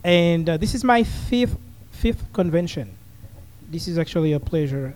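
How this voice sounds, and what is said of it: Haitian accent. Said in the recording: “I'm originally from Haiti. You can tell with my accent.”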